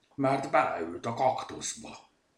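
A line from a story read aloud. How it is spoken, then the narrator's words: Grumbling. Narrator (Hungarian): morgott Zsutek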